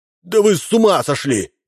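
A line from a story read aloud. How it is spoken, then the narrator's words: Shouted. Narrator (Russian): закричал Мощин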